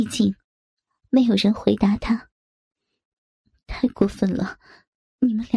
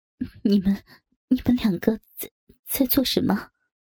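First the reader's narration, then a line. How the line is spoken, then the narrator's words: Trembling voice. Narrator (Chinese): 红霞颤声道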